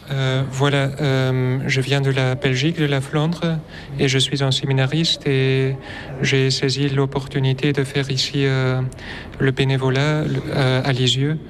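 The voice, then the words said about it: Slight Flemish accent in French. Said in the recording (French): “Vous avez un léger accent.”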